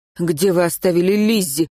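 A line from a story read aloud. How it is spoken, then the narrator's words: Irritated curt remark. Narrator (Russian): раздраженно бросил ему Мартин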